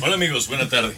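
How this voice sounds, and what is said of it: Radio announcer voice. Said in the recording (Spanish): “ya esa es voz de locutor”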